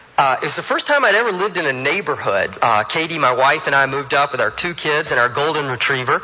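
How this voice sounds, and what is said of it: Alabama Southern US accent. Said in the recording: “I moved up here from Alabama, thus the accent.”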